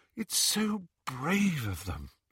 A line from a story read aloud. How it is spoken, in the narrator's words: sighed Hermione admiringly